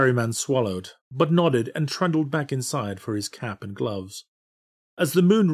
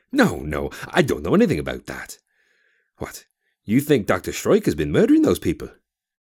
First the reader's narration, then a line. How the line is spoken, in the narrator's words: his tone incredulous